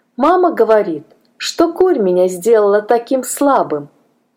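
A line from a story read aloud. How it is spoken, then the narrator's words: Plain. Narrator (Russian): ответил он наконец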